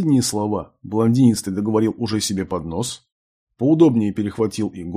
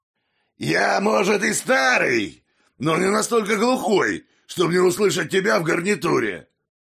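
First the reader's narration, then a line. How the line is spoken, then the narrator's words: Sudden barking into ear. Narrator (Russian): Неожиданно рявкнул прямо в ухо Тиму голос его напарника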